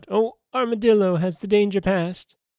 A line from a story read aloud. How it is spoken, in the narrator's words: the tiger called out